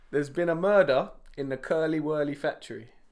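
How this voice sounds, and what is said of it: Attempted Scottish accent, sounds Yorkshire. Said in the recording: “test your Scottish accents... in a Scottish accent... That's more Yorkshire, surely.”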